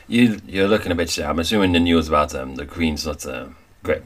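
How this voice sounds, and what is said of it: Wandering put-on accent. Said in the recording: “Have you decided to fix on an accent, honey child? ... I don't know if you're from Wales or from Ireland or from India. Honey. We're just going all over the continent.”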